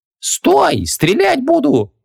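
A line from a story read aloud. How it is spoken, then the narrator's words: Indignant exclamation. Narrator (Russian): возмущенно воскликнула Ванесса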